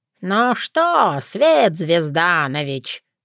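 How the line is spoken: Grumbling. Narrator (Russian): проворчала я

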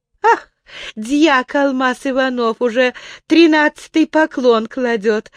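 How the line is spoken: Laughing. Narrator (Russian): снова засмеялась царевна

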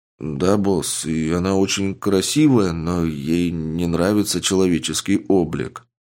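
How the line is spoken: Sad young man. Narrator (Russian): грустно ответил парень

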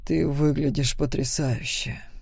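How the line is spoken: Low voice. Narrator (Russian): низким голосом сказал он

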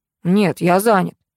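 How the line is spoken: Gruff grumble. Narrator (Russian): буркнул парень

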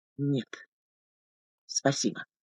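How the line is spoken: Hoarse, grating, tactless. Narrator (Russian): Хрипловатая бестактность скрежетом резанула мягкую, настороженную тишину храма

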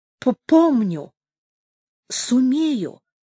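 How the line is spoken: Slight stutter. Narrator (Russian): отвечает он, чуть заикаясь

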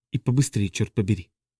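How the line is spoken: Whispered under breath, woman. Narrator (Russian): Про себя она прошептала

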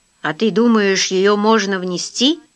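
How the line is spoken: Plain question. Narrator (Russian): спросил Фрэнсис

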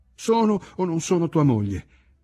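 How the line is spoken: Jubilant moan. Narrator (Italian): gemette, ma suonò piuttosto come un'esclamazione di giubilo

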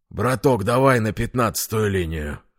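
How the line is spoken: Breathless exhale. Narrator (Russian): выдохнул тот, что устроился на переднем сиденье

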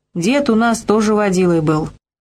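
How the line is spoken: Chuckling. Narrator (Russian): Пузырь хохотнул

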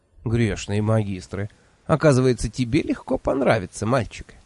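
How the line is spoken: Laughing. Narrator (Russian): рассмеялась она

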